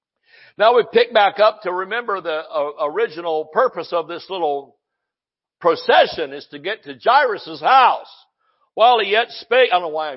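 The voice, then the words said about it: Excited yelling preacher. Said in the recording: “I'm yelling, I'm just excited”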